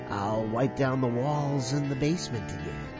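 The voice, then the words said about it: Creepy storytelling voice. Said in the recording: “creepy voice”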